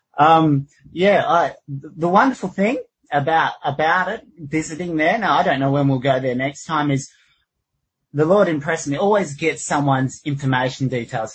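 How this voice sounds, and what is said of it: Australian accent. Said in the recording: “my Aussie accent ... I really didn't know I had an Aussie accent”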